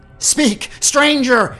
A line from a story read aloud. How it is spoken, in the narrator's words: shrieked